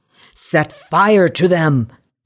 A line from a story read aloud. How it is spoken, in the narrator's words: Henry yelled